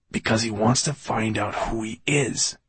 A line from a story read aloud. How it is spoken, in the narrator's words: whispered the quiet voice in Fenolio's head